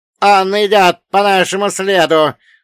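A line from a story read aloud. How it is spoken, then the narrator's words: Screamed. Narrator (Russian): завопил Черномор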